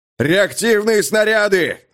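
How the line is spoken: Yelling. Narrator (Russian): заорал Амаха

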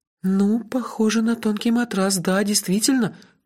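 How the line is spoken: Uncertain agreement. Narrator (Russian): неуверенно согласилась Лаюки

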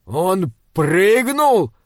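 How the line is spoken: Shouting. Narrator (Russian): прокричал Крейклин

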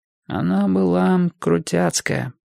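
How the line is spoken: Otherworldly strange voice. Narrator (Russian): сказал Энди своим нездешним голосом

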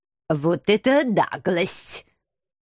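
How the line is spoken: Indignant, through gritted teeth. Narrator (Russian): Возмутился профессор и многообещающе процедил сквозь зубы

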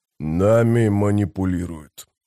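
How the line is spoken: Grumbled. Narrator (Russian): проворчал он

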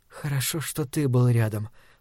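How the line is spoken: Quiet. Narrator (Russian): произносит так же тихо Соня

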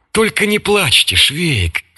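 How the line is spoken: Gentle. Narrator (Russian): мягко сказал поручик Лукаш

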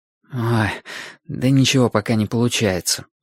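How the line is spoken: Muttered. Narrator (Russian): пробормотал Вашик

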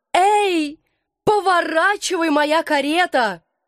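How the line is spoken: Trembling pleading shout. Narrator (Russian): дрожа всем телом, и умоляюще закричала

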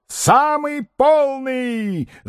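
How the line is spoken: Yelling. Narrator (Russian): завопил Остап

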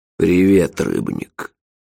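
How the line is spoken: Grumbling. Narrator (Russian): проворчал сэр Киба Ацах, бывший великий магистр Ордена Ледяной Руки

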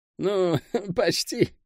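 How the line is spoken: Laughing. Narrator (Russian): рассмеялся тот

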